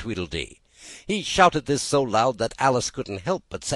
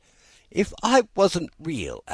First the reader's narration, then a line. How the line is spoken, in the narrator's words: Alice said, half laughing through her tears